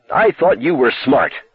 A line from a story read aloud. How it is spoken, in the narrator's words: she shouted finally